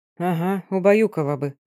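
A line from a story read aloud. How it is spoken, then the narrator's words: Grumbling. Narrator (Russian): буркнул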